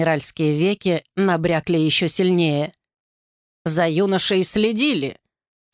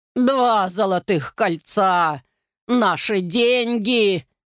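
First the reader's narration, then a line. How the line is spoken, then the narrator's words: Roaring grandmother. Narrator (Russian): взревела бабушка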